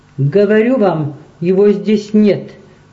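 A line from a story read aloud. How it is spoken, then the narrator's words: Repeated with heavy accent. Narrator (Russian): повторил по-английски с сильным акцентом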